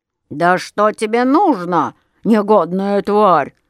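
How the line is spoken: Growling. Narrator (Russian): зарычал он

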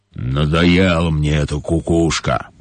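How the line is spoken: Grumbling lion. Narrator (Russian): проворчал лев

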